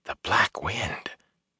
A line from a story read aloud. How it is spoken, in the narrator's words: Matt breathed